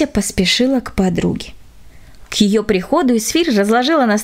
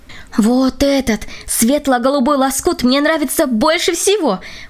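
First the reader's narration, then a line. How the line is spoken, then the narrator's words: Exclaimed. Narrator (Russian): воскликнула Катя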